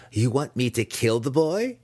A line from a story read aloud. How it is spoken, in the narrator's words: Massage asked eagerly